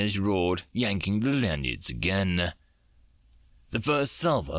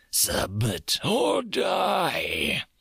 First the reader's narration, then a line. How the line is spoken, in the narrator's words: They roared